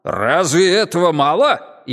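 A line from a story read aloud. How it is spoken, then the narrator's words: Furious bark. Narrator (Russian): яростно рявкнул он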